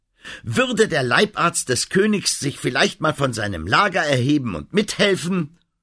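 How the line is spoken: Roaring woman. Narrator (German): meinte sie, brüllte

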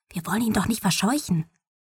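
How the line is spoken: Whispered. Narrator (German): flüsterte Mom

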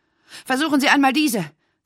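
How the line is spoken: Breathless. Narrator (German): sagte sie atemlos

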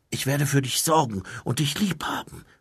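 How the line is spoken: Whisper. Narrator (German): flüsterte Mumin

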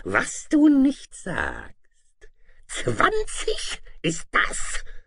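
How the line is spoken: Dragon's mocking hiss. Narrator (German): zischte der Drache höhnisch

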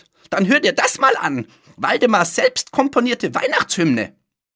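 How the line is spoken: Calling out. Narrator (German): rief Fliegenbart

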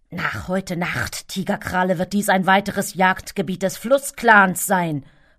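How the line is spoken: Hissing tomcat. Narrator (German): fauchte der rotbraune Kater

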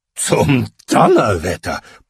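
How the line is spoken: Blustering with laughter. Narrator (German): polterte Lukas lachend

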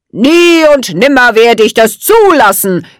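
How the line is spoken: Called out. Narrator (German): rief er

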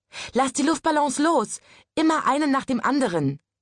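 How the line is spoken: Called out. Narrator (German): rief es

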